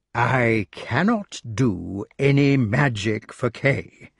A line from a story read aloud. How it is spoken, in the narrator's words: he said slowly